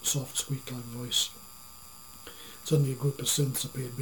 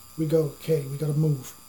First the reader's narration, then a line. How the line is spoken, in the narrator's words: Zeeper exclaimed